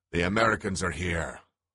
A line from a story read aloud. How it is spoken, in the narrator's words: howled a voice from a loudspeaker